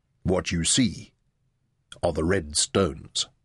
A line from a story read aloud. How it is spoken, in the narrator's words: said Kululu quietly